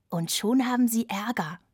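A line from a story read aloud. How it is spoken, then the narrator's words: Gloating whisper. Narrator (German): flüsterte ich schadenfroh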